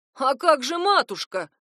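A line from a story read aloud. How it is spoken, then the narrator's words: Offended retort. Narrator (Russian): обиженно вскинулся кузен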